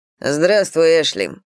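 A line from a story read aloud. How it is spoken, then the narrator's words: Rather dry. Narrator (Russian): сказал он довольно сухо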